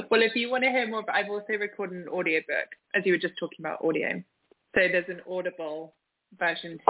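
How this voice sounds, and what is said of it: Speaker with a pleasant accent. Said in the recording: “I love your accent... listen to her because you'll love her voice”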